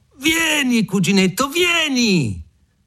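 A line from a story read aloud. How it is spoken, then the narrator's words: Shouted. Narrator (Italian): gridò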